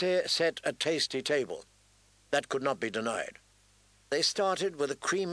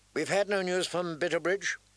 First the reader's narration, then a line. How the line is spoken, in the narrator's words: she asked anxiously